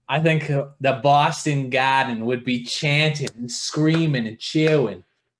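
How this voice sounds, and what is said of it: Bad put-on Boston accent. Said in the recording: “that's my Boston accent. is pretty bad”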